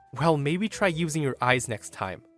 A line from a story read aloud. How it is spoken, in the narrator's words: under my breath, said